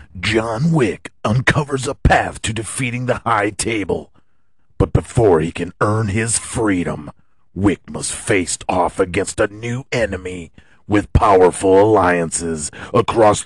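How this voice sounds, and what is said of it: Dramatic movie trailer narrator voice. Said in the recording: “We should do this in the trailer voice.”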